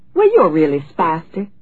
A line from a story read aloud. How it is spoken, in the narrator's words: Delia chirped